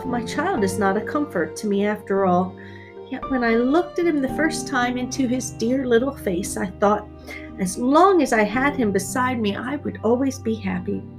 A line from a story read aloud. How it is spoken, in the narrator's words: The mother would sigh and say to herself